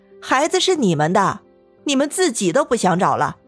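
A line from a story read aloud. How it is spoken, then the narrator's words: Cold sneer. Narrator (Chinese): 许真真依旧冷笑道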